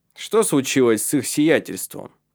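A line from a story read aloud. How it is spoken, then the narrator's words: Irritated question. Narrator (Russian): спросил раздраженно Калеб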